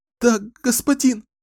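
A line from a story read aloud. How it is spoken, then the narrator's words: Sobbing woman. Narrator (Russian): всхлипнула она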